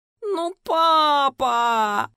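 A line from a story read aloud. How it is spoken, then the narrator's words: Whiny high-pitched moan. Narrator (Russian): В десятый раз простонала я, стараясь, чтобы голос звучал как можно тоньше и противнее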